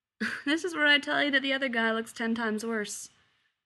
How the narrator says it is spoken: Jim laughs

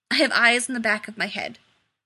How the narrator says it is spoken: he snapped

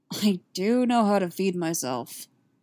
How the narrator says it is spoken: Han grumbled

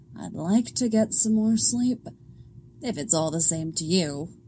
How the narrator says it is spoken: Alana grumbles

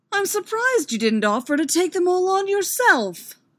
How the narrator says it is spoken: Obi-Wan snapped

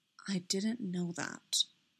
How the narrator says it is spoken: said quietly

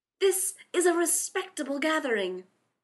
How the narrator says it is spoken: Rodney snapped

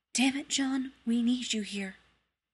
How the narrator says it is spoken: he heard her whisper

